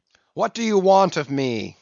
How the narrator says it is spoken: cried the captain

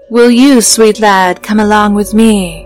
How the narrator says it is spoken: It breathed

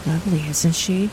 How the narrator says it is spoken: Cyrus whispered

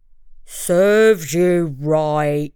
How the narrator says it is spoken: he growled

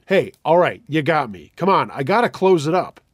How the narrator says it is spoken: Tired and thinking it was a coworker trying to fuck with me, I shouted

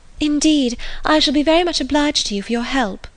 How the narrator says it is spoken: cried Lucy

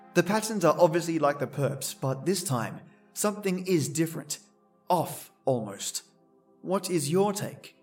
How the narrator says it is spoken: asked

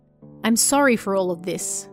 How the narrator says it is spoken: I said

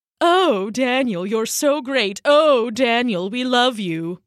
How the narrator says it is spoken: sneered Bezer

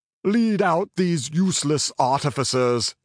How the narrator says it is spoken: he thundered

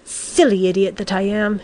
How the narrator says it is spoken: he said crossly

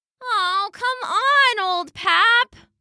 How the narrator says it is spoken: Lulu whined

